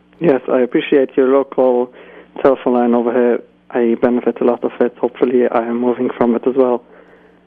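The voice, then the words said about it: Slight British accent. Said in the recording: “a bit of a British accent tinge”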